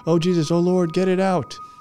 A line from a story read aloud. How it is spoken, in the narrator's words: the girl that had been out with Rooster and Tan just starts screaming